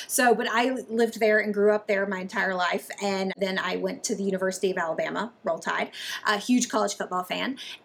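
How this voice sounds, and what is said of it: Mild Southern US accent. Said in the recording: “you pick up on a Southern accent... Maybe a little more Southern... Maybe not quite as Southern as my other fellow Alabamians”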